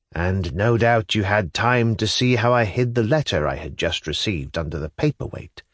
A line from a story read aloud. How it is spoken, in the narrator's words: said Nikolai Vsyevolodovitch calmly